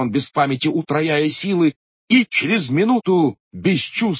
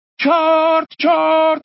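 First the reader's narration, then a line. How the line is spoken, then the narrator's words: Shouting. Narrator (Russian): кричало вслед за ним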